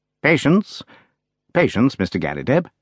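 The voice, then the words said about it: Soothing voice. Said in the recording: “in a soothing voice.”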